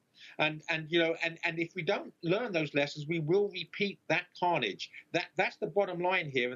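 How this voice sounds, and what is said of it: Lovely foreign-sounding accent. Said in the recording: “what is that lovely accent?”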